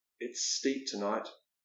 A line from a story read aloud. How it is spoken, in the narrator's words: he mutters